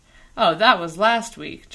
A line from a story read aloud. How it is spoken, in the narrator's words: Jonathan scoffed